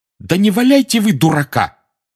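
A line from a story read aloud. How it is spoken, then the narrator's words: Sharp scolding. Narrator (Russian): прикрикнула на него профессор МакГонагал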